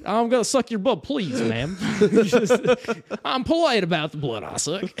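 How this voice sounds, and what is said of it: Put-on Southern drawl. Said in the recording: “Southern drawl. ... You're a southern vampire here.”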